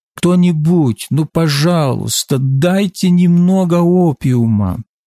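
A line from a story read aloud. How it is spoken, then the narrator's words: Desperate moaning. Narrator (Russian): отчаянно стонали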